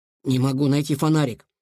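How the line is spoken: Hoarse wheeze. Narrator (Russian): прохрипел Илья

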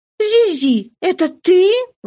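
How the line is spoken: Surprised exclamation. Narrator (Russian): воскликнула она с удивлением

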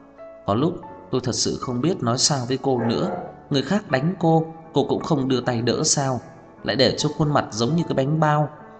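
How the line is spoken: Sighing. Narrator (Vietnamese): Cô thở dài, mới nói

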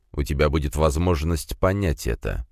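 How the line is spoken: Cold. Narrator (Russian): холодно посмотрел на меня Дорн

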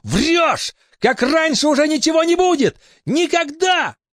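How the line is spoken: Snarling near-shriek. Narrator (Russian): Он оскалился и крикнул, почти провизжал

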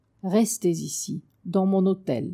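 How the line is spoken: Plain. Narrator (French): lui dit Pao

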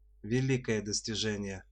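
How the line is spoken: Gloomy comment. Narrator (Russian): мрачно прокомментировал Тришка

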